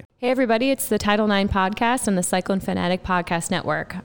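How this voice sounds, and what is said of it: Sick-sounding voice from a cold. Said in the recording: “I'm also joined by a little bit of a cold. So I'm sorry if I sound like I'm doing a bad Britney Spears impersonation”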